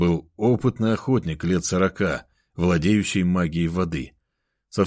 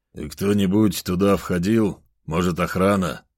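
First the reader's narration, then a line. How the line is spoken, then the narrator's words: Plain. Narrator (Russian): спросил Федор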